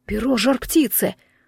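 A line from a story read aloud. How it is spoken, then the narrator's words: Exclaiming. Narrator (Russian): воскликнул Иван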